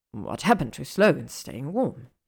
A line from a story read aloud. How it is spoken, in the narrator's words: he growls